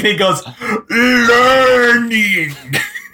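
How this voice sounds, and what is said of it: Imitates a movie monster's voice. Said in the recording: “Was that Frankenstein impression? ... That's what he sounds like.”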